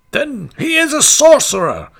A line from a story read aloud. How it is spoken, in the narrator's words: cried with one voice